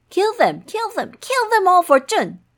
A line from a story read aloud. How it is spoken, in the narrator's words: He called over the guards from outside the door, shouting loudly